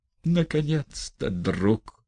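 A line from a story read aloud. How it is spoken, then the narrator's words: Deep sigh. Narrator (Russian): Он вздохнул полную грудь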